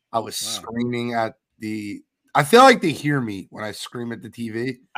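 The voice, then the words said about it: Hoarse, strained voice. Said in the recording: “My voice is still gone.”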